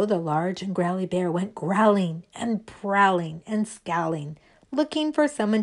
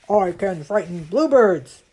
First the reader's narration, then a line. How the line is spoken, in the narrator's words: said the large and growly bear